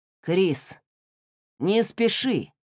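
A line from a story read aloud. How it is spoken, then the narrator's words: Muffled voice. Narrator (Russian): Голос директора за спиной звучал как-то глухо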